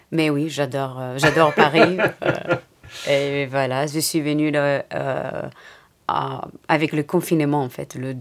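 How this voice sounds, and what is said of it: Light Greek accent. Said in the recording (French): “un léger petit accent ... elle est grecque”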